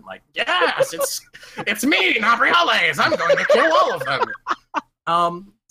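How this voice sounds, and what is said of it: Cartoon villain voice. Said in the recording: “He sounds like a goddamn Saturday morning cartoon villain.”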